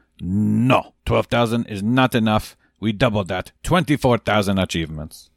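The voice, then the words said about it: Imitates another person's accent. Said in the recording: “You like my Waka accent, right? It's pretty good. ... It's a dead on.”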